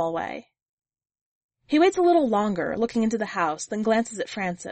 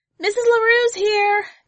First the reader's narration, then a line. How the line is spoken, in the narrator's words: a little wide-eyed, before turning to yell